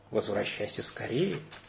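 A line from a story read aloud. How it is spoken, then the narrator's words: Silent mouthed whisper. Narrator (Russian): Ее губы беззвучно прошептали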